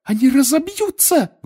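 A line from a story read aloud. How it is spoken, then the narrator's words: Shrieked. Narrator (Russian): взвизгнула Гермиона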